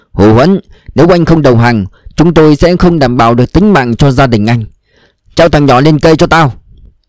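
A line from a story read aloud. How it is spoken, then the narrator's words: Loud shout over loudspeaker. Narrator (Vietnamese): đại úy Tùng trên loa gào to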